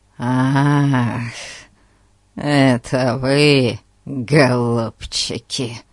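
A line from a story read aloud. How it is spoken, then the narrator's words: Creaky voice. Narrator (Russian): Проскрипел мистер Ларкин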